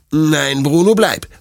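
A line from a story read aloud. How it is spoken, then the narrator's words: Stern. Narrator (German): sagt Detlef streng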